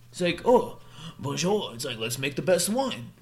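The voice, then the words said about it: Bad put-on French accent. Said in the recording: “that's a terrible French accent”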